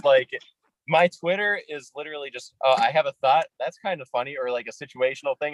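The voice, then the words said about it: Nasal Upper Midwest American accent. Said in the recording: “I'm from Minnesota, but I kind of sound, aside from a few words, a little more like, you know, Wisconsin or Chicago or something. Yeah, like, it's a little nasally like that”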